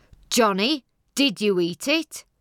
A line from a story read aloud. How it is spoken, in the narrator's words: asked sternly